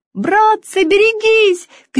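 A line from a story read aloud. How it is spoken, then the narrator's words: Shouting. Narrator (Russian): крикнул кто-то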